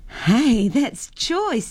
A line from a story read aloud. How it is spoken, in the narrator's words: Jennifer laughed